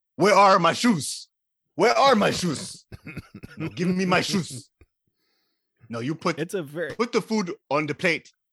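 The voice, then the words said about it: Imitated accent of a film character. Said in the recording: “approximate that accent again that he was doing”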